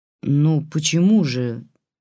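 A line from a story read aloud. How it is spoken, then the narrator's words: Displeased droning. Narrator (Russian): недовольно прогудела Лидия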